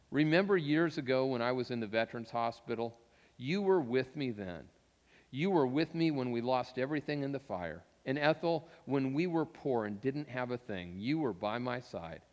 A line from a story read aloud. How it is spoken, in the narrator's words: He softly said to her